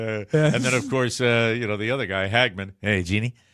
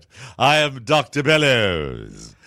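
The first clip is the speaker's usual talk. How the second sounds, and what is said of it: Dr. Bellows impression, British accent. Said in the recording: “an American officer sounds like that? ... you always speak with a British accent.”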